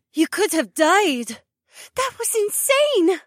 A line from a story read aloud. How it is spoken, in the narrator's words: Becca gasped